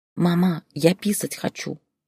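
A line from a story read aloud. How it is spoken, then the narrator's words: Quiet. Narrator (Russian): тихо сказал Лешка Зое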